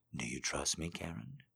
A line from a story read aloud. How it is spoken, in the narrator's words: Harry whispered